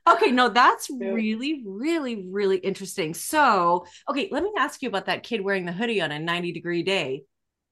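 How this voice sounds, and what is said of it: Slight Canadian accent. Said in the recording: “your accent probably just made it sound fine... I like to think I don't have an accent, but I know I do... A little bit, yes... It's only when I say sorry that everybody's like, whoa... as a Canadian”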